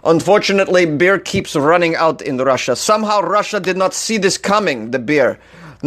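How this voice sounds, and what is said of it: Poor put-on Russian accent. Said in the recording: “I'm gonna read this whole article with a Russian accent ... This is a bad accent.”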